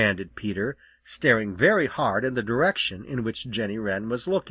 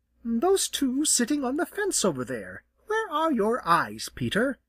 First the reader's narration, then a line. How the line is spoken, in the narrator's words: replied Jenny rather sharply